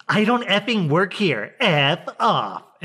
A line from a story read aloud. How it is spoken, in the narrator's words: Karen then just screams